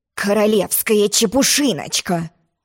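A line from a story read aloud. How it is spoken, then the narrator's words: Angry grumble. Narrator (Russian): злобно проворчал король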